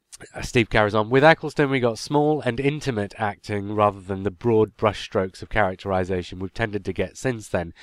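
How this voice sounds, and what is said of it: Congested voice from a cold. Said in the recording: “I've got a bit of a cold, so my reading skills have taken a bit of a nosedive”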